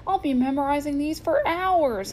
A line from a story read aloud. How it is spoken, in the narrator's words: he whined